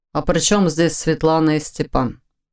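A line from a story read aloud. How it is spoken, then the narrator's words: Plain question. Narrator (Russian): спросил Войтых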